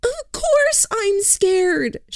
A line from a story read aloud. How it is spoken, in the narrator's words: she said, her voice too high